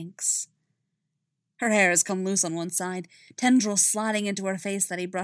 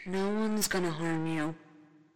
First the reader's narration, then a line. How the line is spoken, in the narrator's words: the remnant of Ben Organa sighs